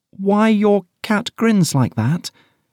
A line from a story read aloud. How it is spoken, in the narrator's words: said, a little timidly, for she was not quite sure whether it was good manners for her to speak first